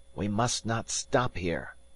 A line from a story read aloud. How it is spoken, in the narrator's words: whispered Wells